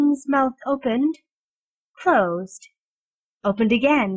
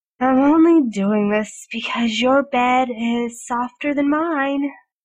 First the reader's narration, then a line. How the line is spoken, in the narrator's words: Merlin grumbled